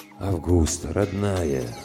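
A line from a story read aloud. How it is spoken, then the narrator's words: Fatherly tone. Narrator (Russian): говорил полковник таким отеческим тоном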